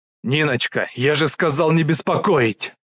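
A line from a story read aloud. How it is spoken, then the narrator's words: Unrestrained bark. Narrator (Russian): Не сдержавшись, рявкнул Мухамедов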